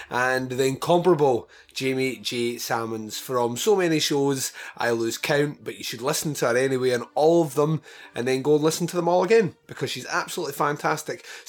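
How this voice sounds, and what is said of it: Raspy, slightly deeper cold voice. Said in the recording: “struck down with a cold. You can probably still hear it in my raspy, slightly deeper voice”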